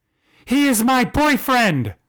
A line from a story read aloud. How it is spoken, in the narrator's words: Harper screamed